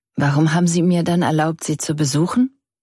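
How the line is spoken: Plain question. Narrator (German): fragte Annie

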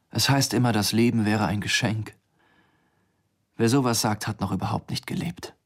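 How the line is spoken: Quiet continuation. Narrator (German): fuhr sie leise fort

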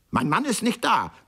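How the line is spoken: Very loud speech. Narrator (German): gab ganz laut von sich

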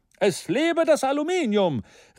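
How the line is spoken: Stormy enthusiastic exclamation. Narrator (German): rief der Sekretär des Komitees stürmisch, wie immer, wenn er sich für etwas begeisterte

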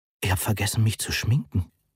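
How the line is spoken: Whisper. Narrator (German): flüsterte Moni

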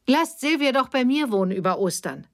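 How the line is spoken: Calling out. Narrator (German): rief Betty

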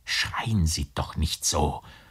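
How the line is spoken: Whispering. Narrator (German): flüsterte der Gerichtsdiener

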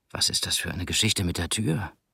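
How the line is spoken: Whisper. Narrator (German): flüsterte er gleich darauf Mirit zu

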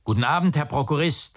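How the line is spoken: Called back. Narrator (German): rief es zurück

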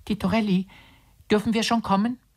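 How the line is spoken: Small timid voice behind door. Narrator (German): rief hinter der Tür ein Stimmchen zart und ängstlich

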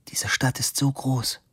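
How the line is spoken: Hesitant whisper. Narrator (German): flüsterte sie und schwieg unschlüssig

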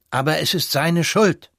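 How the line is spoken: Almost loud, then quieter. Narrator (German): rief der Konsul beinahe laut und mäßigte dann seine Stimme

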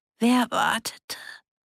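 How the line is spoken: Croaking like a raven, smiling. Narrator (German): Betty krächzte immer noch wie eine Rabe, aber sie lächelte

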